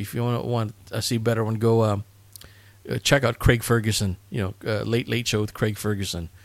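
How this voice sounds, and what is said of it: Usual voice. Nothing is said of it.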